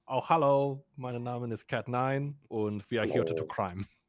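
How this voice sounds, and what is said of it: Character voice. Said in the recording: “the voice is on ... I had to go through the phrase a couple times in my head to get into the voice”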